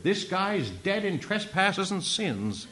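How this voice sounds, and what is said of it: Put-on American accent. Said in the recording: “Sounds better when you talk an American accent”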